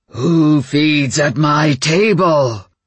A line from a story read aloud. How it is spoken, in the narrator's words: The roar in my head